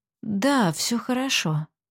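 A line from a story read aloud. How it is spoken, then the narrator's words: Sighing mutter. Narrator (Russian): вздохнув, пробормотала Аглая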